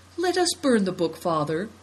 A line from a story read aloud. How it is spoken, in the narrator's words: pleaded Seven Stars